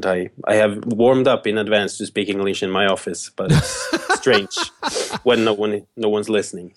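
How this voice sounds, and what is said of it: Norwegian-accented English. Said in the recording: “you have the best accent... The Norwegian accent”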